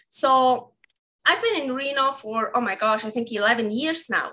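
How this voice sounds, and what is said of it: Swiss accent. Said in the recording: “I'm sure by now everyone figured out I have an accent. So I'm from Switzerland”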